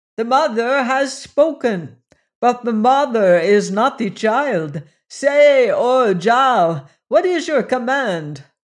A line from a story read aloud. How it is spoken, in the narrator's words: he cried to him